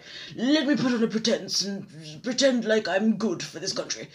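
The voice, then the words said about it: Imitates another person's voice. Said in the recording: “Quite a good impression.”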